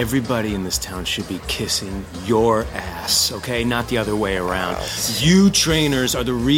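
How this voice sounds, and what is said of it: Usual voice. Nothing is said of it.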